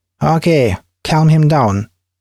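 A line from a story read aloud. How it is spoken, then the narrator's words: Officer's loud speech. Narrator (Russian): Офицер громко сказал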